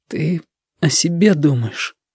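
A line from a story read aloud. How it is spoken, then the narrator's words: Tearful. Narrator (Russian): Уже сквозь слезы сказал Витька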